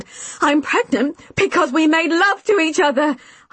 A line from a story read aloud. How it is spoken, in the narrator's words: I shouted angrily